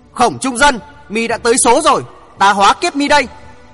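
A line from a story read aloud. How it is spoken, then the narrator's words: Forceful loud shout. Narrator (Vietnamese): Thượng Chí vận sức vào đơn điền, quát lớn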